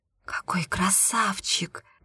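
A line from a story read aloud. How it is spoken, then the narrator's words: Whispered. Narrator (Russian): прошептала Карина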